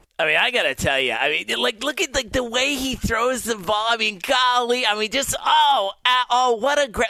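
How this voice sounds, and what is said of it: Chris Collinsworth impression. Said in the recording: “best Chris Collinsworth impression of anyone who does a national radio show on Sunday nights”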